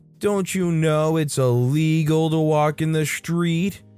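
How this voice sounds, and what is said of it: Mincing whiny voice. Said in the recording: “Adopting a mincing little whiny voice”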